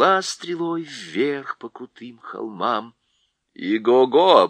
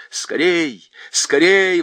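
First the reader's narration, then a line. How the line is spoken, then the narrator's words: Urgent exclamation. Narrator (Russian): воскликнула Аравита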